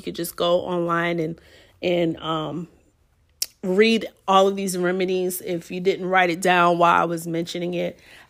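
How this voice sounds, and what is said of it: Strained, failing voice. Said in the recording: “I'm not feeling at my best, so my voice is going now ... feeling under the weather”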